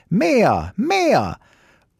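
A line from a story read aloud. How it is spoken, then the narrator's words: Small child shouting. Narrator (German): schrie der kleine Häwelmann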